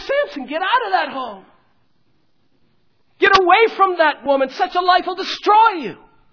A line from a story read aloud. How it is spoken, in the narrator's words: We want to shout